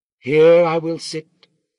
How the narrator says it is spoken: she said in her chanting voice that rang across the darkening courtyard

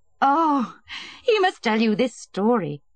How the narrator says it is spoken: said Betsy, laughing

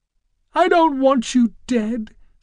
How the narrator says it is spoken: sobbed Francine

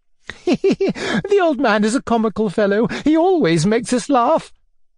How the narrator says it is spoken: piped Anfissa Petrovna

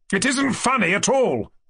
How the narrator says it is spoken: I cried to Fifichkin, more and more irritated

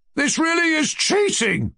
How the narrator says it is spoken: cried Ferdyshenko in a lachrymose voice

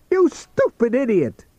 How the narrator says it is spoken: cried to himself

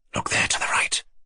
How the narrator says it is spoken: Aglaya said in a rapid half-whisper to her obstinately silent cavalier

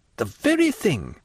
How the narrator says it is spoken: exclaimed Albert

